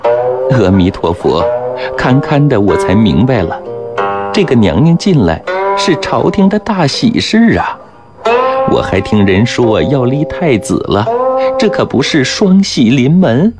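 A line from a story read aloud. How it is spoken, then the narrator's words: Smiling. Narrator (Chinese): 乌雅氏听得似懂不懂，笑着说道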